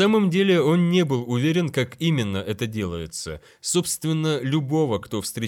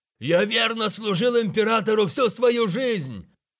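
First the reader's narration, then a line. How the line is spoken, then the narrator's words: Shouted. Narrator (Russian): крикнул он в лицо Тейлоку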